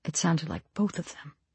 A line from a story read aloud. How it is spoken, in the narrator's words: she whispered